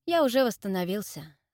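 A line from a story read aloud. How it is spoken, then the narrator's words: Calm statement. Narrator (Russian): спокойно заявил Джерард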